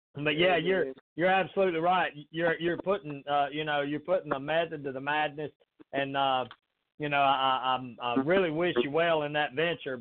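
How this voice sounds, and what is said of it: Southern American accent. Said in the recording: “it's just a Southern accent ... that's actually just a Southern accent”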